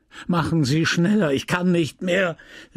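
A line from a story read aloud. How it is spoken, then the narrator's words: Angry shout. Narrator (German): rief Bovary, zornig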